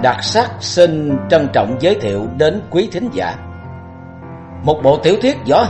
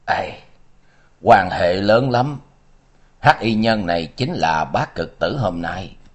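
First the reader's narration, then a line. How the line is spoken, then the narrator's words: Soft sighing reply. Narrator (Vietnamese): Lưu Bất Trú khẽ thở dài đáp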